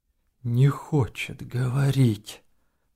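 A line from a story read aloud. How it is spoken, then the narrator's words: Whispered. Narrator (Russian): прошептал майор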